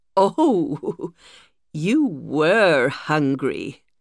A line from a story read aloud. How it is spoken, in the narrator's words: she laughed